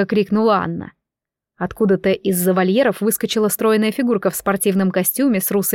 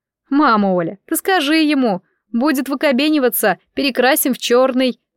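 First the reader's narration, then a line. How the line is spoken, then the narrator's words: Laughing. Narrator (Russian): засмеялась Анна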